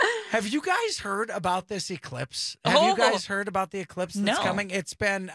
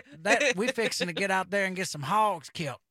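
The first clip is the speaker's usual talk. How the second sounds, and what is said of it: Put-on Southern redneck accent. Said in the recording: “That is a Southern accent right there.”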